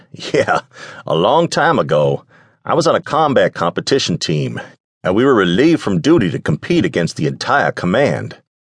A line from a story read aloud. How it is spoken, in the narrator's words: Chuckling, Nick said